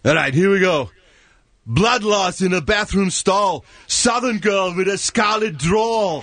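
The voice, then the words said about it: Imitates another person's voice. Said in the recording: “It landed on Arnold Schwarzenegger... Arnold Schwarzenegger”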